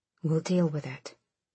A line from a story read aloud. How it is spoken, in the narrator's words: Sorrel said quietly